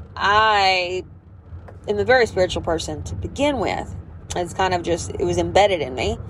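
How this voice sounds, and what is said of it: Southern American accent. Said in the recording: “I'm obviously Southern if my fucking accent did give it away”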